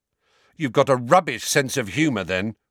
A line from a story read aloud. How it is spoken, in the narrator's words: Ron snapped